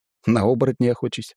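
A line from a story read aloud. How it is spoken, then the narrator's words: Snorting chuckle. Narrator (Russian): хмыкнул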